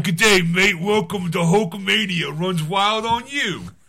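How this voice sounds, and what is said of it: Put-on Australian accent. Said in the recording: “his accent, his accent you know his australian accent”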